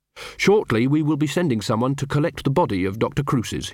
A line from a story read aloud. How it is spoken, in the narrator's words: he said